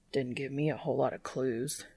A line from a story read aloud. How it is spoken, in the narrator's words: Dean grumbles